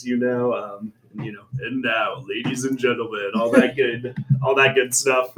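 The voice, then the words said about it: Sports announcer voice. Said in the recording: “I put on my announcer voice”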